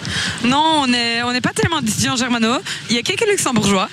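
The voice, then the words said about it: German-speaker accent in French. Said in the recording (French): “J'adore votre accent ... C'est encore meilleur avec l'accent ... cet accent ... il n'y a pas énormément de germanophones”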